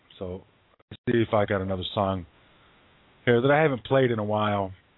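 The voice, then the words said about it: Strained, worn-out hoarse voice. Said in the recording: “my voice is just about shot”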